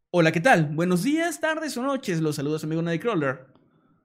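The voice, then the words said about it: Radio announcer voice. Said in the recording (Spanish): “me pueden mandar un saludo como locutor ... un saludo muy especial con voz de locutor”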